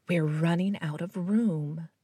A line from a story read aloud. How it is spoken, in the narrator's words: he whispered, and the instruments thought he sounded worried